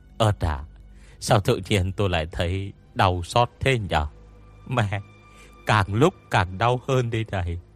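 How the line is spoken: Groaning. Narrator (Vietnamese): Tôi Mập rên lên

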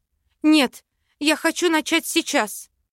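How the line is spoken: Anxious exclamation. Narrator (Russian): воскликнула, боясь, что к утру опять все забуду

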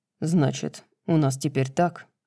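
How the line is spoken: Soft laughter. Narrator (Russian): Тихо засмеялся он

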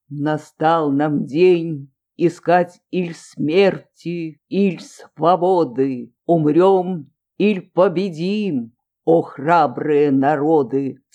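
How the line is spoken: Loud, resonant declamation. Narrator (Russian): Волков начал громким, звучным голосом

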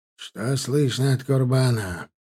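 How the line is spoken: Tired question. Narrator (Russian): устало спросил Юсуфза

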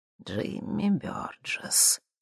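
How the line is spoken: Quiet, older woman. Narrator (Russian): тихо произнесла женщина во флисовом жилете, невысокая и седая

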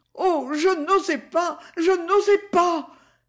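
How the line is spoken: Terrified young woman exclaiming. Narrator (French): s'écria la petite comtesse, véritablement terrorisée

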